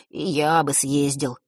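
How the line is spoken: Wistful sigh. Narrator (Russian): вздохнул Ник

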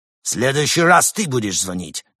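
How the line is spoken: Bark. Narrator (Russian): рявкнул он на Георгия

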